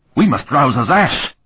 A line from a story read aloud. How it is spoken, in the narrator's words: Annius cried in a shrill voice